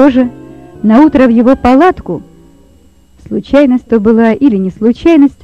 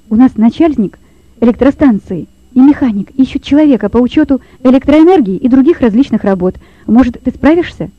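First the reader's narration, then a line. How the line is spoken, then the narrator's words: Quick speech. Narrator (Russian): быстро проговорил он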